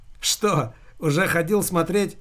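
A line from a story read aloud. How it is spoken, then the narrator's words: Chuckling. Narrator (Russian): хохотнул Дима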